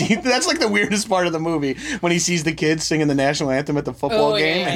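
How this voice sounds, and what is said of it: Usual voice. Nothing is said of it.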